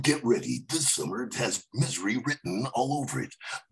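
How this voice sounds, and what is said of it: Dramatic movie trailer announcer voice. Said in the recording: “your famous movie trailer voice, movie guy voice. How would the movie trailer guy describe”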